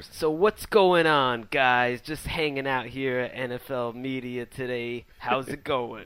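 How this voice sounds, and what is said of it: Imitates another person's voice. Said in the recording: “and I were taking turns trying to impersonate you... our TD impersonation”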